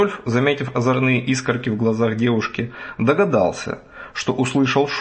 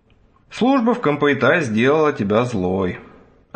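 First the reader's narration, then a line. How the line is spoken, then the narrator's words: Sad sigh. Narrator (Russian): огорченно вздохнул Рудольф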